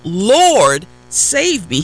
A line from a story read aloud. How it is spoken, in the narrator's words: beginning to sink, he cried out